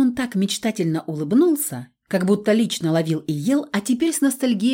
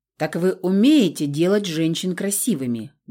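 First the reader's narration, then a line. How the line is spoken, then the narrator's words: Menacing question. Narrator (Russian): грозно спросил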